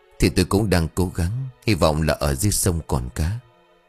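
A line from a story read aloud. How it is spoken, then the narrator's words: Helpless reply. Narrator (Vietnamese): Anh bất lực ... đáp lời của vợ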